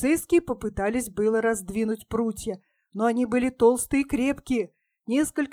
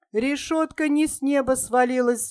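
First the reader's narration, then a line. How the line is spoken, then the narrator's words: Agitated shout. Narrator (Russian): взволнованно крикнул Газда Коробыш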